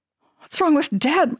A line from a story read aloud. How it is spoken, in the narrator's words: my sister whimpered after Mom raced out the door